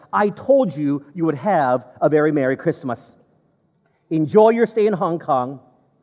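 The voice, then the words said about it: Heavy Cantonese English accent. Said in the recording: “he said with a very heavy Cantonese English accent”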